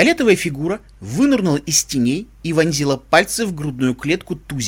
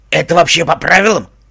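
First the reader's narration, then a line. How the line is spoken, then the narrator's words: Doubtful question. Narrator (Russian): усомнился Фрэнк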